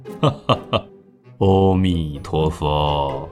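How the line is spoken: Calm, smiling. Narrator (Chinese): 佛印禅师不但没有气得跳脚，还笑了笑，说

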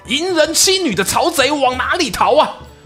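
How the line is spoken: Sudden shout from the woods. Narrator (Chinese): 岸边树林呢又爆出一声喊

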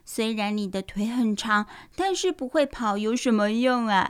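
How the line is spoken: Mocking sneer. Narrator (Chinese): 糟糟讥笑那只小马说

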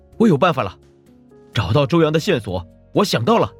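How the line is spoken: Excited shout. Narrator (Chinese): 顾北突然有些激动，朝屋子里的人喊

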